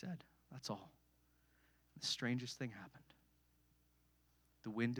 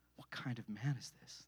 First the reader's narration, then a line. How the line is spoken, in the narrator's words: They asked themselves anxiously